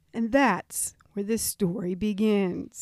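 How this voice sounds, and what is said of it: News reporter tone of voice. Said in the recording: “your news reporter voice? ... news reporters talk in this, like, certain kind of tone, and I learned it ... You did that really well.”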